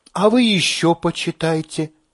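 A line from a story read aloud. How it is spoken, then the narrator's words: Gentle advice. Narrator (Russian): мягко советует она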